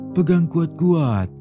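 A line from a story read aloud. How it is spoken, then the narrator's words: Shout. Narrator (Indonesian): teriak Tuan Qiang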